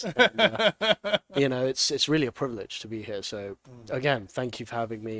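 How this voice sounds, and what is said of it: English accent. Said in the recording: “the accent's going to help a lot ... I'm from England”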